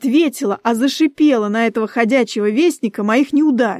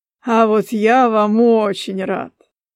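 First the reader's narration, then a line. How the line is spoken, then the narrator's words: Laughing. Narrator (Russian): Засмеялся этот красавец Шате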